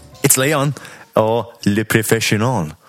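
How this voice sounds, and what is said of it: Put-on foreign accent. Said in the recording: “Oh, beautiful accent. ... I've been practicing.”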